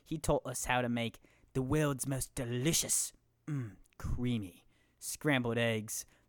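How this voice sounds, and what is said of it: Gordon Ramsay impression. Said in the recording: “my Gordon Ramsay impression”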